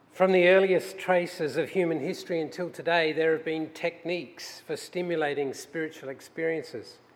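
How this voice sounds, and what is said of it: Australian accent. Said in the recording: “my accent remains an Australian accent,”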